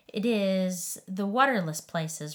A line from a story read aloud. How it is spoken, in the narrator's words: replied the Leviathan